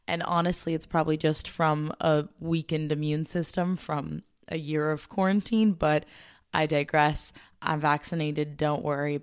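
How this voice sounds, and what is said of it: Raspy, hoarse voice. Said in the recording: “the raspiest voice that hopefully is not the most nauseating to listen to... I'm like slightly catching a teeny bit of a cough”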